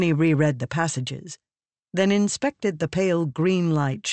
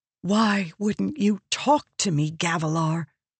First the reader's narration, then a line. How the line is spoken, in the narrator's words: she whispered